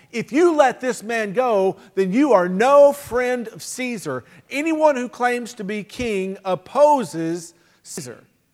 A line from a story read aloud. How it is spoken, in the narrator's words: the Jewish leaders kept shouting